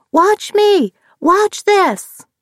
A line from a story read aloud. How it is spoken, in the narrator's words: Nearly all of them screaming